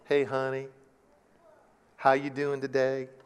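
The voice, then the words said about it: Put-on Southern drawl. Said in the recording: “they'll speak in that kind of little drawl, the southern drawl.”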